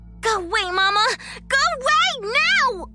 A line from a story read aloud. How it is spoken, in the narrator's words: shrieked fearfully, yet with a powerful certainty